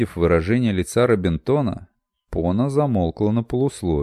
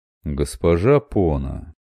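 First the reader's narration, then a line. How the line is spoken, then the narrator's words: Honeyed voice. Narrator (Russian): медоточивым голосом произнес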